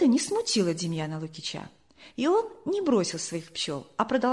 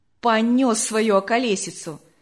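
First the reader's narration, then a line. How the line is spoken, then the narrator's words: Fairly loud. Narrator (Russian): сказал один из них довольно громко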